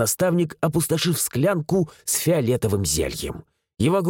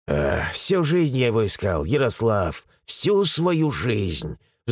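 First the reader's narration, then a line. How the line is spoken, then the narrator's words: Sighed. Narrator (Russian): вздохнул Митрофан Игнатьевич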